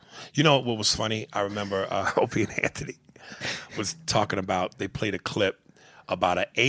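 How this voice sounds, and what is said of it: Usual voice. Nothing is said of it.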